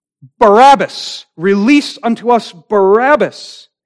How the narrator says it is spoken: the people with one accord shout

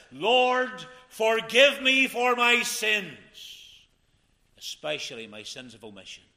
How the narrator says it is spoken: Moments before he slipped into God's eternity, he cried this

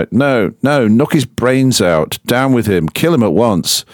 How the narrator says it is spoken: Many cried out

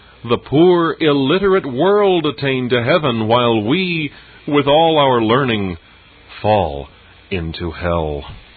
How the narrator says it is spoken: an eminent prelate exclaim, as he surveyed a spectacle like this

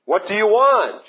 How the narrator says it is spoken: yelled through her door

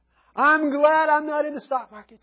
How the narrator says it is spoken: he exclaimed with glee

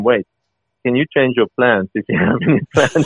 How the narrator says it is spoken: he started chuckling

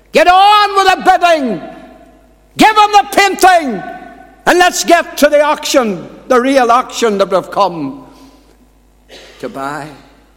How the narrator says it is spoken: after another shouted

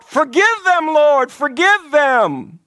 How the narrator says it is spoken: Christ's blood shed for the ungodly cried out

